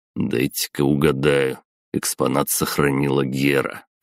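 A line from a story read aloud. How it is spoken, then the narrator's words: Wry snort. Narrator (Russian): хмыкнул я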